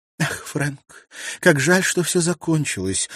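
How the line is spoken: Sighing. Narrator (Russian): вздохнула она

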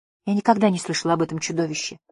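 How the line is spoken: Whisper. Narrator (Russian): прошептала

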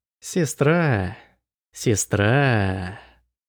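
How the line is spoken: Mocking drawl. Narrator (Russian): Насмешливо протянул он

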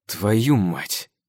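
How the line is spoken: Quiet swearing. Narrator (Russian): Тихо матерюсь я

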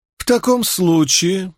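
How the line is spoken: Honeyed, sweet voice. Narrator (Russian): произнес Фортис медовым голосом

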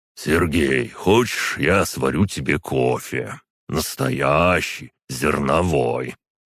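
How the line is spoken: Sighing question. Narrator (Russian): Юрий Григорьевич вздохнул и спросил

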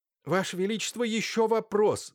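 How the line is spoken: Shouting. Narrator (Russian): закричал Лаевский

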